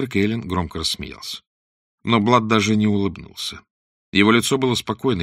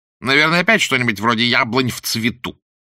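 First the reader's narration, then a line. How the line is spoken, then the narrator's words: Contemptuous snort. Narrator (Russian): презрительно фыркнул его светлость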